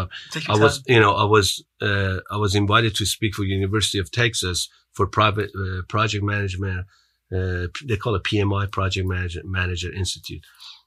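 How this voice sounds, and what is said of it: Non-American English accent. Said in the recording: “because you have an accent, man. You got to get American.”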